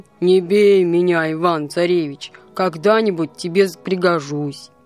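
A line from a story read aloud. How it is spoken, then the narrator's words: Bear speaking in human voice. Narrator (Russian): медведь говорит ему человеческим голосом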